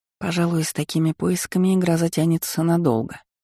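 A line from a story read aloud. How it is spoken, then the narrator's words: Sighing. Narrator (Russian): вздохнула я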